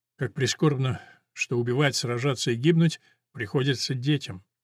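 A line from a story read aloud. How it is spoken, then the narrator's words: Quiet. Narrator (Russian): тихо сказал он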